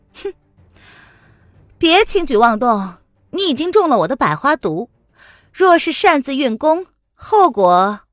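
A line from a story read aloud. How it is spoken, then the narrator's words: Cold composed laugh. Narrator (Chinese): 凌渊镇定的冷冷的一笑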